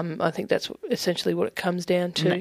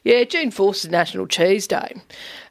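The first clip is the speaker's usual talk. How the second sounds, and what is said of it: Good put-on American accent. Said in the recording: “In that accent. ... That's a very good American accent. ... It's a very good American accent,”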